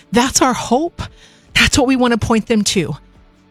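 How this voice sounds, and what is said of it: Urgent, pleading delivery. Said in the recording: “the urgency that you hear in my voice”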